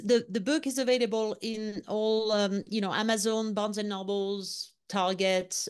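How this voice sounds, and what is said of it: Speaks with a noticeable accent. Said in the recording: “because of my accent”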